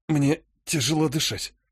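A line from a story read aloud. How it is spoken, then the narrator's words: Tired hoarse wheeze. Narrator (Russian): устало прохрипел я, пытаясь смочить глотку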